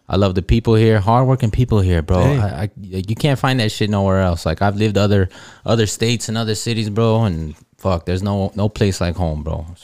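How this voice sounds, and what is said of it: Rural Midwestern-sounding accent. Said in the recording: “weird ass accent ... you have for sure. You have an accent ... he sounds like a cornfield”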